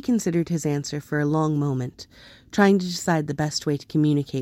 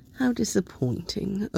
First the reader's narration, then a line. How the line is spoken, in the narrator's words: Obi-Wan murmured